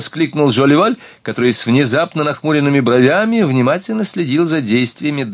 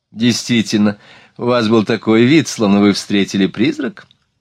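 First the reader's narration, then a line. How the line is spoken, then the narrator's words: Laughing remark. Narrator (Russian): Смеясь, заметила Марианна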